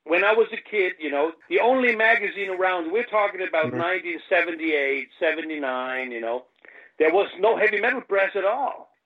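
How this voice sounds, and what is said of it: American-leaning English accent. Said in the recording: “I am from Germany... I got more of an American than a British accent.”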